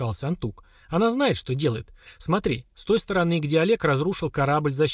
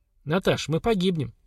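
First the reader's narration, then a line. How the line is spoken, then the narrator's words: Calm. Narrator (Russian): спокойно заметил Семен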